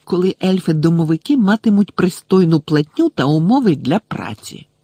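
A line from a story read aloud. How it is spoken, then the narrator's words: Hissed reply. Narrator (Ukrainian): просичала вона у відповідь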